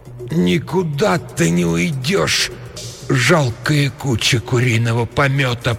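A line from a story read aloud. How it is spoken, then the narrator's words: Moaning. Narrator (Russian): простонала она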